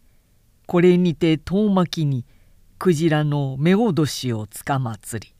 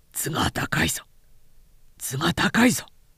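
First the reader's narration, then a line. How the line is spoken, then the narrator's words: Low-voiced warning. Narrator (Japanese): と低い声で注意した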